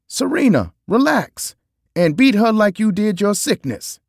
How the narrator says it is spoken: I yelled out to on the court

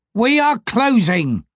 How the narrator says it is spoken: called the taverner, suddenly, loudly, impatiently

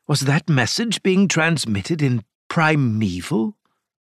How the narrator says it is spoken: breathed

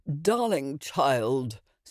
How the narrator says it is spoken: said the elder woman, yawning,

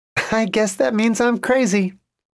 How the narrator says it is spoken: Lily said happily

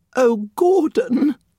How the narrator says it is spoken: the woman whimpered

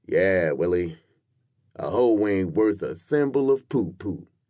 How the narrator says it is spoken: said sleepily

